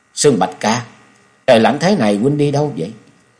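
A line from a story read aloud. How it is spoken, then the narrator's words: Shivering, trembling question. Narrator (Vietnamese): Chung Nhật Tự đang quấn chặt chiếc khăn quanh mình, vẫn run run hỏi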